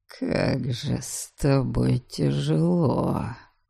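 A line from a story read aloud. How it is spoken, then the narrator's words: Quiet complaint. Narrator (Russian): Негромко посетовал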